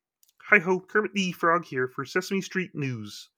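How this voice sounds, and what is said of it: Kermit the Frog character voice. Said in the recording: “I can do Kermit and I can do Kermit pretty good ... my voice is cracking a little bit because of the throat”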